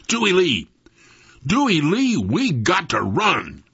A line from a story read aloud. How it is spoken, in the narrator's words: yell right in his ear